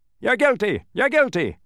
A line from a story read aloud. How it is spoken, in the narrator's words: He continued blowing the whistle until his face was beet red, stopping only long enough to shout